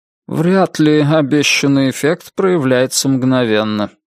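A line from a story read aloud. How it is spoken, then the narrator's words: Dry. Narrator (Russian): сухо проговорил мистер Гонт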